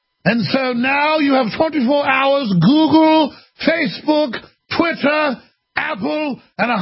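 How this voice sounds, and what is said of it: Usual voice. Nothing is said of it.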